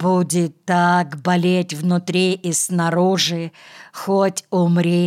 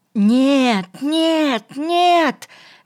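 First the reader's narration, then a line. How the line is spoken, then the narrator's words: Shouting. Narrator (Russian): кричал Энно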